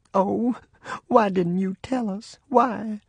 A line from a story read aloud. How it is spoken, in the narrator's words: Mama ... I heard her say in a quavering voice